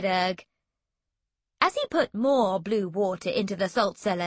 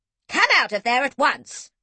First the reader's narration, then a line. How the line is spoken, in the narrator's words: snapped Granny One